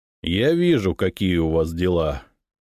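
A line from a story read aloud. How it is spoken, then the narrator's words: Menacing reply. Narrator (Russian): грозно ответил я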